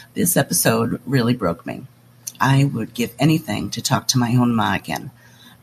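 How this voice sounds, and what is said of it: Sick, under-the-weather voice. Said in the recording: “Sorry about my voice. A little under the weather.”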